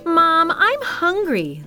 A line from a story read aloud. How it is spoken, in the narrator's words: the widow's son cried